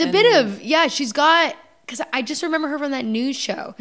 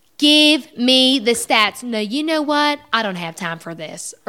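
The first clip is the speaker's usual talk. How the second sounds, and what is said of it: Nancy Grace impression, slight Southern accent. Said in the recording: “I used to do Nancy Grace ... I have an impression! ... you can do a little bit of a Southern accent.”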